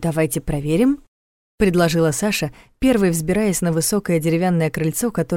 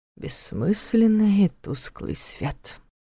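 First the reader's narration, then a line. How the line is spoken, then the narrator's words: Mutter with a snort. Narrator (Russian): пробормотал Нев, хмыкнув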